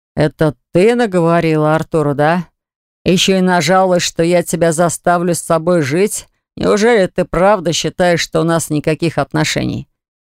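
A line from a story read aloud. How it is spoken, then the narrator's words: Menacing deep bass. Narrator (Russian): грозно пробасил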